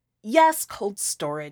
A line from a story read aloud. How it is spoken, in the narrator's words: I snapped